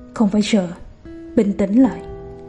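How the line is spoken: Soft quiet voice. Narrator (Vietnamese): Tang Chi nhỏ giọng

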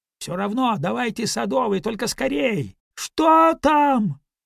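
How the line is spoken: Shouted. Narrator (Russian): крикнул Мэро

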